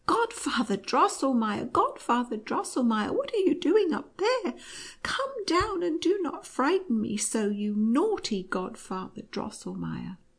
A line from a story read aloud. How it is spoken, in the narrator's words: But she took courage and cried out loudly with sobs